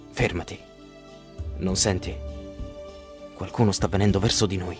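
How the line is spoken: Whisper. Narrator (Italian): Ulisse sussurra

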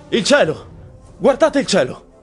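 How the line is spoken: Sudden shout. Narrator (Italian): qualcuno grida

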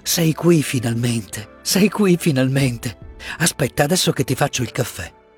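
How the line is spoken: Murmuring, overcome with emotion. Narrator (Italian): mormorò lei non trattenendosi più

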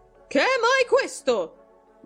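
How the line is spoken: Loud shrill shout. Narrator (Italian): gridò con voce alta e stridula

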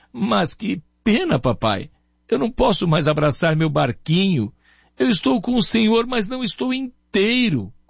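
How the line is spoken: Boy sobbing, broken voice. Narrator (Portuguese): o menino, com a voz entrecortada, soluçando, dizia

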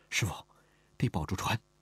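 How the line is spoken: Soft, quiet. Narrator (Chinese): 轻声说道

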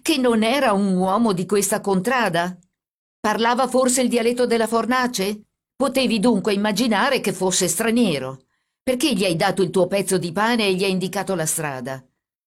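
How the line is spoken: Shouting. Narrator (Italian): gridò il carabiniere

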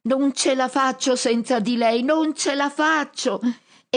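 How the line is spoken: Shrieking from above. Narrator (Italian): lui strilla dall'alto

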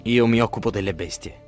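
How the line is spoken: Murmuring. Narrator (Italian): mormora Ulisse

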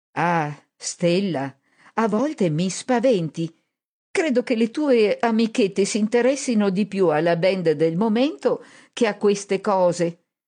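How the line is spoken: Resigned sigh. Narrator (Italian): sospirò rassegnata

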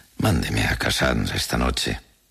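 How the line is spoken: Consoling tone. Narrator (Spanish): dijo en un tono consolador

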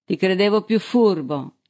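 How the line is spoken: Exclaimed. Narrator (Italian): esclamò Balsili

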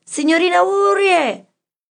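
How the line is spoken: Shouted. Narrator (Italian): gridai

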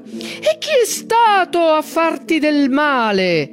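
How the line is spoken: Cyclops roaring, ravaged throat. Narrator (Italian): Il ciclope la urlò dalle profondità della sua gola devastata

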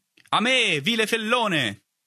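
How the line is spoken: Shout from behind. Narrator (Italian): gridò una voce alle mie spalle

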